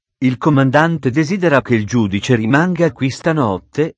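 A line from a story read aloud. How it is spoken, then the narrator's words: Plain. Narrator (Italian): disse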